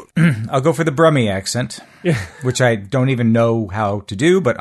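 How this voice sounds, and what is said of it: Usual voice. Nothing is said of it.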